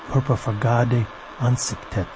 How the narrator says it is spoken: he murmured in the dark, and the sound was like an incantation

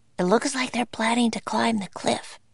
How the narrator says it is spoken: whispered Annie

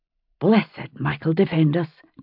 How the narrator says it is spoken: Jenny said under her breath in Gaelic

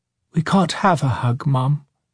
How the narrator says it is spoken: Daniel replied, almost sadly

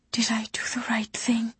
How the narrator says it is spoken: she whispered

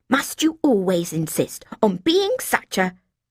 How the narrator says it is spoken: she hissed

